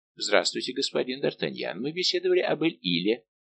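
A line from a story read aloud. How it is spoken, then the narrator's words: Easy, worldly tone. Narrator (Russian): начал Фуке непринужденным тоном светского человека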